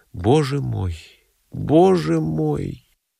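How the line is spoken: Muttering. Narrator (Russian): бормоча

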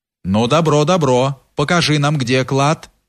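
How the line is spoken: Plain. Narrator (Russian): сказал земский

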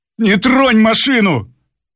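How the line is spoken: Shout. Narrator (Russian): крикнул шофер

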